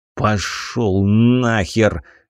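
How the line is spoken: Muffled growl. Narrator (Russian): Глухо прорычал я в ответ

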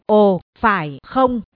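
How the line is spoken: Cold. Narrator (Vietnamese): Long Kình Thiên lạnh lùng nói

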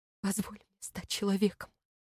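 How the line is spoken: Breaking into trembling whisper. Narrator (Russian): срываясь на дрожащий шепот, вымолвил он

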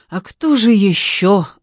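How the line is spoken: Sighing. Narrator (Russian): вздохнула Надежда

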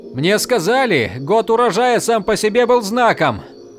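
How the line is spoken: Exclaiming. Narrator (Russian): воскликнул Им

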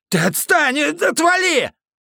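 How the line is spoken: Yelling. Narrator (Russian): Орал он

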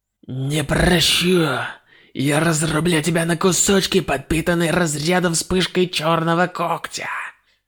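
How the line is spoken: Deep sigh, muttered. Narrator (Russian): Сэй, глубоко вздохнув, пробормотал

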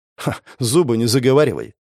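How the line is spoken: Scoffing. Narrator (Russian): хмыкнул я

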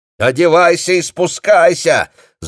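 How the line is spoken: Shouting. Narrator (Russian): закричала она сыну

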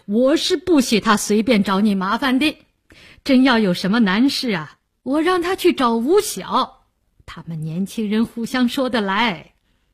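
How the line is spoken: Said laughing. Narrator (Chinese): 梅启良笑道

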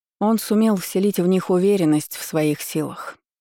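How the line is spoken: Plain. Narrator (Russian): ответила Риналия

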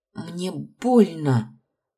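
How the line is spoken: Pained hiss. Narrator (Russian): зашипела я

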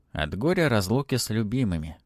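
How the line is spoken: Sighing. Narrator (Russian): вздохнул Матвей

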